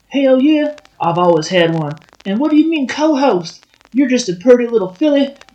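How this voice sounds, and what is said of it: Put-on Southern accent. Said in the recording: “you have an accent ... suddenly southern guy”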